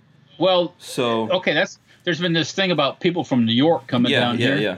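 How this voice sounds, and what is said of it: Usual voice. Nothing is said of it.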